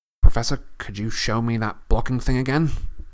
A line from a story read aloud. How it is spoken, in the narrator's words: looked up nervously at Lockhart and said